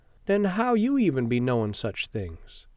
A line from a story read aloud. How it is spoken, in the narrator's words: Sabra sighs